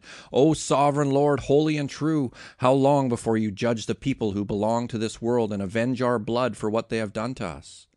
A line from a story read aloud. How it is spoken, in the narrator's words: They shouted to the Lord and said